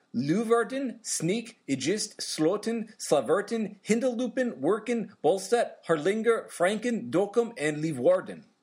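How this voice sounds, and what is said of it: Put-on Swedish accent. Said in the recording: “Very IKEA. ... it sounded like IKEA. ... I may have put a Swedish accent on it.”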